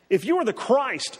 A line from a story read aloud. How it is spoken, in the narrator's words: they said